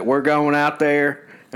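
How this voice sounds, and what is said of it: Bad fake Southern accent. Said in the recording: “fake Southern accent ... that's the worst Southern accent.”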